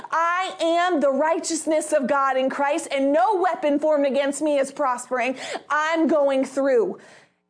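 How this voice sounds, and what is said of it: Speaks with strong conviction. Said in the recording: “hear the conviction in my voice”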